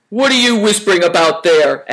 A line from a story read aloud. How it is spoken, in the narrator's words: asked Greencoat sternly